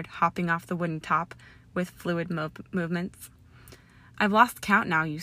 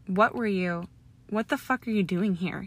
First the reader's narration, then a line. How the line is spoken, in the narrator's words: He snapped quickly